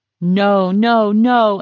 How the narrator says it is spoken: he heard Saul shouting

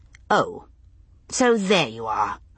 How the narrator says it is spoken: I said quite coldly

